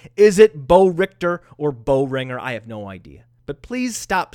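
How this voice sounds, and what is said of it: Usual voice. Nothing is said of it.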